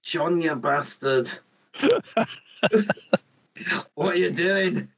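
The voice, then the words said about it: Put-on Scottish accent. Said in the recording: “That's the only way I can do a Scottish accent. ... that's because you've only watched Braveheart.”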